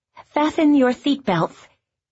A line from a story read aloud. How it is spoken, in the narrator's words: The stewardess, blonde and pretty, with a lisp